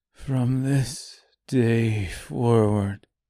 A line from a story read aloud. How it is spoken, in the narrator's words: he said quietly, almost inaudibly